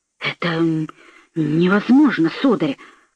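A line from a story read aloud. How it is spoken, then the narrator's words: Muttered. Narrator (Russian): пробормотал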